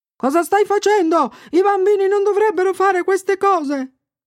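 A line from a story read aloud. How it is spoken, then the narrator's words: Old man yelling. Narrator (Italian): un vecchietto urlò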